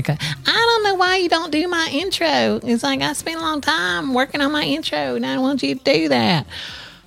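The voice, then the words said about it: Imitates another person's voice. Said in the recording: “Why does my Adam voice more and more start to sound like Parker Posey from White Lotus?”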